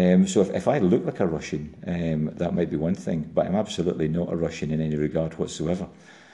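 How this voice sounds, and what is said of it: Usual voice. Nothing is said of it.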